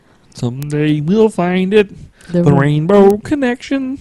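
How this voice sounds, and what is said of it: Kermit the Frog character voice. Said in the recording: “That's not a bad impersonation. ... Is Kermit the Frog. ... I talked like Kermit the Frog”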